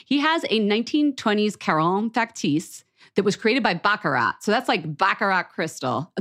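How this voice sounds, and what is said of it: Philadelphia accent. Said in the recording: “The way I say Baccarat is so Philly ... when I get excited, my Philly accent comes out”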